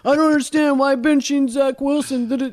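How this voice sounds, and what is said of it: Imitates another person's voice. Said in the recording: “do you like my impersonation? ... that's how the caller sounded”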